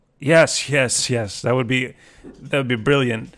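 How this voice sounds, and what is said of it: Impersonation of another person's voice. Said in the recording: “that impersonation of Stuart”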